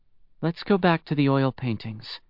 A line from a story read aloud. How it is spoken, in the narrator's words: she said softly